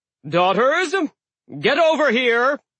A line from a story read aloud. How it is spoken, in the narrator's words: called out